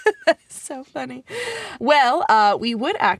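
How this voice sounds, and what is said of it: Usual voice. Nothing is said of it.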